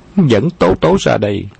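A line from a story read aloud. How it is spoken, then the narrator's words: Raised commanding voice. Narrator (Vietnamese): nàng cao giọng ra lệnh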